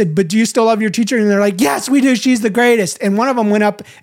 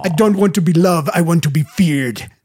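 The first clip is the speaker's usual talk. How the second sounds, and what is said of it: Imitating someone's accent. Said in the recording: “in her accent”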